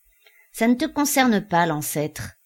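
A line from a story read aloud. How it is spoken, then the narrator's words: Curt. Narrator (French): répondit Mito d'un ton sec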